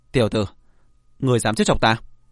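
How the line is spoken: Stunned, then angry. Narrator (Vietnamese): Tống Đình sửng sốt, sau đó thì tức giận

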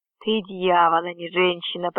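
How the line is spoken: Whisper. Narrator (Russian): прошептал я

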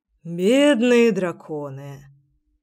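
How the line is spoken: Sigh. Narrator (Russian): вздохнул Генрих

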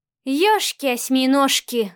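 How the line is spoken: Breathless exclamation. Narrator (Russian): выдохнула Машка

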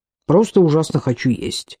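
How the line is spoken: Grumbled. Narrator (Russian): буркнула Шейла

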